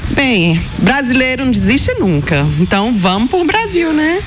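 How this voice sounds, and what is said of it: Brazilian regional Portuguese accent. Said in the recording (Portuguese): “com esse sotaquezinho? ... de Fortaleza”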